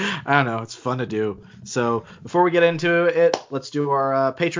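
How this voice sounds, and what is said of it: Usual voice. Nothing is said of it.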